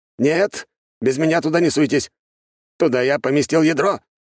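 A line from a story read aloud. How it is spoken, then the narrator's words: Archmage shouting. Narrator (Russian): закричал архимаг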